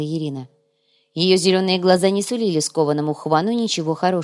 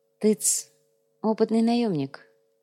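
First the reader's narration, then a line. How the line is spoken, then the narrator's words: Quiet voice. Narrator (Russian): негромко произнес Сантьяго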